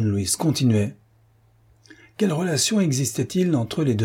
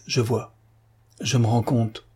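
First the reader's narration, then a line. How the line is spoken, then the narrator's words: Murmuring. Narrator (French): murmura Patrice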